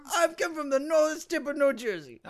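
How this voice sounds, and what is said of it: Unusual put-on accent. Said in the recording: “That's a very unique accent.”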